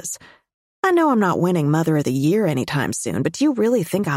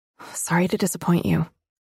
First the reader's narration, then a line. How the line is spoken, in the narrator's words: I murmur